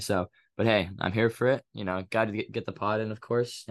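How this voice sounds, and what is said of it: Sick-sounding voice with occasional cough. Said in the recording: “My voice might sound a little bit different. It's my flu game era, or I guess allergy game era. So a little bit of a cough here and there.”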